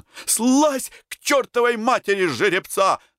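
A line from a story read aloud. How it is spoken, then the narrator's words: Sudden yell. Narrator (Russian): заорал вдруг Антон на Карабанова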